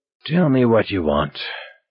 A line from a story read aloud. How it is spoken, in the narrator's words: Magliore said wearily